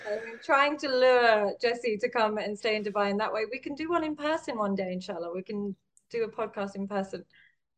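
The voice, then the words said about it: London English accent. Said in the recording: “born and raised in London, hence the English accent”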